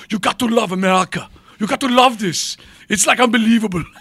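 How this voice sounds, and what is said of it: Put-on German, Schwarzenegger-like accent. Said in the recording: “You sat in front of Arnold Schwarzenegger. ... that's my basic German accent for everybody.”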